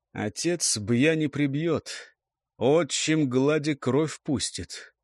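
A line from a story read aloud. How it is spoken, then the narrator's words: Grumbling raven. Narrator (Russian): проворчал ворон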